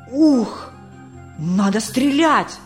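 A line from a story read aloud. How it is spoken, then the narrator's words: Confused hiss. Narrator (Russian): прошипел сбитый с толку индеец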